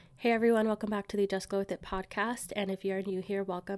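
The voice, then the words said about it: Sick, stuffed-up sounding voice. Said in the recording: “I am a little bit under the weather. I have a cold and I've been pretty much sick all week”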